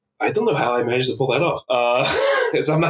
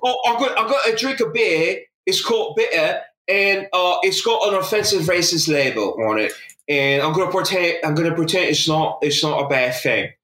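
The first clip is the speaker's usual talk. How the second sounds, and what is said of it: Put-on British accent. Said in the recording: “I'm not good at doing a British accent. ... That was better than mine.”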